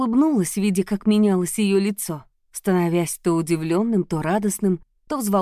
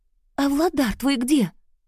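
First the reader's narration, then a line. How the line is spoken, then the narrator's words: Whisper. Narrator (Russian): снова зашептала Заряна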